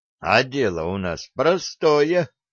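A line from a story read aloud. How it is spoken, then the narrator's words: Rude joking. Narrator (Russian): грубо пошутил Кеша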